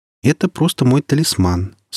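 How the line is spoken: Calm reply. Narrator (Russian): спокойно ответила Настя

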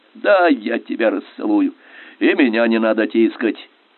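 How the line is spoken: Stubborn grumbling. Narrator (Russian): непримиримо ворчал художник

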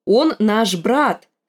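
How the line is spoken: Too loud. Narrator (Russian): сказала Арья слишком уж громко

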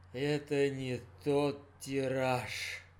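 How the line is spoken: Tired father. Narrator (Russian): устало сказал папа

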